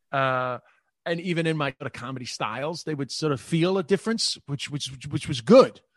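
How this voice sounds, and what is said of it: Working-class American accent. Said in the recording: “Americans hear working class in my accent... despite my accent”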